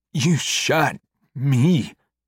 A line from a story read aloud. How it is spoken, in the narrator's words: Jacob gasps